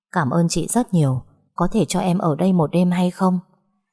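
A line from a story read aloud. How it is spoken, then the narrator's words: Soft gentle voice. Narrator (Vietnamese): cô gái đó mới nhỏ nhẹ nói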